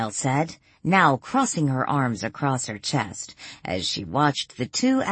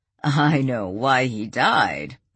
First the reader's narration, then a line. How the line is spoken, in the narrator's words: Morris laughed